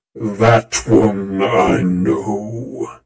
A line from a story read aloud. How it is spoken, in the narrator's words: the general growled